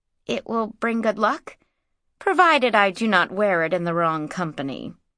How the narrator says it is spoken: said Mara dryly

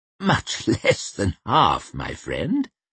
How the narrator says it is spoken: Baez chuckled

